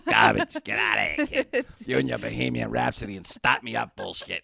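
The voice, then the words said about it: Imitates another person's voice. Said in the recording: “That was an excellent impression of me. ... he made you sound like the chocolate person from SpongeBob.”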